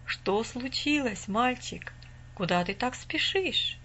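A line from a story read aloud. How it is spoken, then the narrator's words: Calm old man asking. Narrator (Russian): спокойно спросил дедушка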